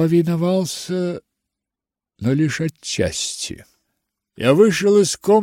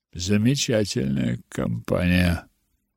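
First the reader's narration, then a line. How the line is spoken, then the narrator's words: Muttered. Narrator (Russian): пробормотал Хитклифф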